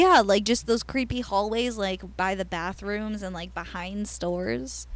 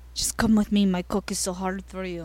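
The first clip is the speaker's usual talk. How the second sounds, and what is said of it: Put-on Israeli man's accent. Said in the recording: “That was a really good accent.”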